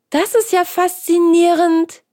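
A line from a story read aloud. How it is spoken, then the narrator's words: Exclaimed. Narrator (German): rief Hans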